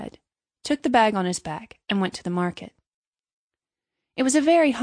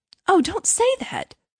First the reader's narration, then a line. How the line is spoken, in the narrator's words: cried little Hans